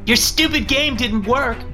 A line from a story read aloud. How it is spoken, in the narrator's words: Christina yelled up the stairs